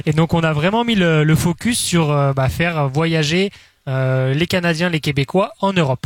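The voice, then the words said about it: European French accent. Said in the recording (French): “ça s'entend peut-être à mon accent, mais moi, je suis originaire aussi de l'Europe”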